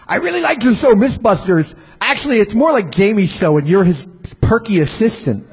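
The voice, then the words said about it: Put-on voice for a letter writer. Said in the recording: “I'm giving that guy that voice because, you know, that I'm editorializing.”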